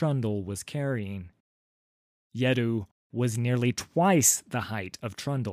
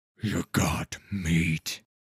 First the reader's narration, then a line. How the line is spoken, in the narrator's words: said Yeddu with a rumbling, gravelly voice